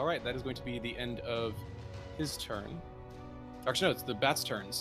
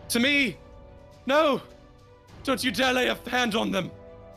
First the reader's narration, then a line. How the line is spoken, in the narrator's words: Father Lucian screaming